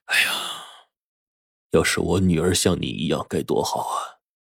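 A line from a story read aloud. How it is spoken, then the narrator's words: Sighing. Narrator (Chinese): 翁始皇叹了口气说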